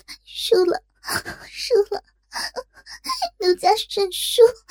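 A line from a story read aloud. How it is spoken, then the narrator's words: Exhausted crying. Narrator (Chinese): 再也承受不住，终于支撑不住，哭道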